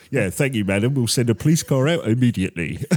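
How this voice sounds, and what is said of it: Old-school police officer voice. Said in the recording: “your police impression ... It's a bit old school”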